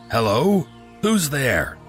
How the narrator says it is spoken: Mustering what little courage I had, I yelled out

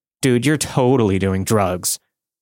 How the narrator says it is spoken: sarcastically said

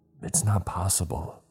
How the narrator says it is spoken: I whispered

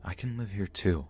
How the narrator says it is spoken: I whispered

